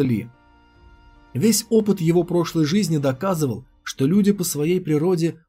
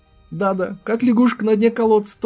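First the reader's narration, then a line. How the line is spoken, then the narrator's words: Girls giggling. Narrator (Russian): хихикали девчонки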